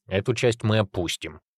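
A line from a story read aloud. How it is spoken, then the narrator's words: Grumbling cave dweller. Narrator (Russian): проворчал пещерник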